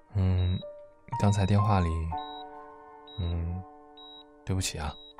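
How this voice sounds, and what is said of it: Quiet, softly spoken apology. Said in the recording (Chinese): “小声道歉”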